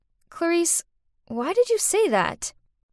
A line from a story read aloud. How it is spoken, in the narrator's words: calmly said